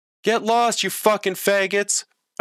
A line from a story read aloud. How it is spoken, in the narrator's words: a voice shouted